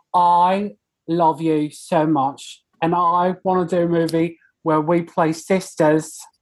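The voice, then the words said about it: Poorly done put-on British accent. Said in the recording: “That was really bad, but usually it's better ... is that supposed to be Australian? ... it was British”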